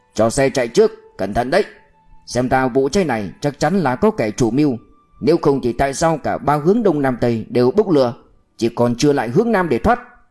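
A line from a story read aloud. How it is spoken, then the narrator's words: Urgent distant shout. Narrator (Vietnamese): tiếng Ca Chiến hét bên ngoài xe ngựa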